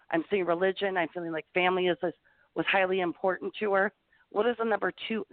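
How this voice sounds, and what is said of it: Talking very fast. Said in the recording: “See, I'm talking fast. I do that when I channel, so I'm sorry I'm talking so fast.”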